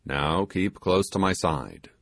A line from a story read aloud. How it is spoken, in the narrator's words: said the sailor